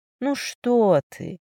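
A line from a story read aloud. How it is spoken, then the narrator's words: Charming, smiling young woman. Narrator (Russian): вдруг совершенно очаровательно улыбнулась девушка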